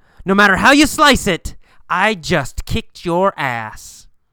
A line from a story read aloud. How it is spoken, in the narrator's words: yells